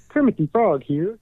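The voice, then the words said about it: Kermit the Frog puppet voice. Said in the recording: “I can do a Kermit the Frog impression.”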